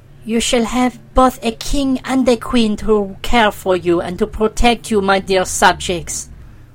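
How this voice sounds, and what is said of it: Sweet voice. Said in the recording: “in a sweet voice”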